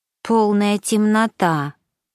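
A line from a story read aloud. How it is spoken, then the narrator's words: Disappointed drawl. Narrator (Russian): разочарованно протянула Миша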